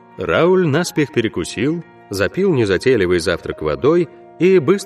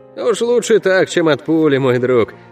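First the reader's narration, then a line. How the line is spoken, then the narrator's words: Laughing. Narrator (Russian): хохотнул Алехандро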